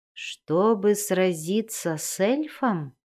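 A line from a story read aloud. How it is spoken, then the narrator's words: Plain. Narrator (Russian): спросил паук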